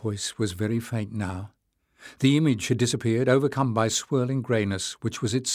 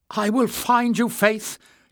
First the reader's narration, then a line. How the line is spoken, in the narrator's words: Jasmine shouted desperately